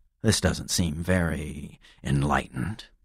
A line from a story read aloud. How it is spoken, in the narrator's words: I muttered